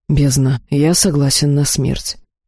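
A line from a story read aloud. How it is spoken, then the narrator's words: Gloomy. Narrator (Russian): мрачно решил Тахир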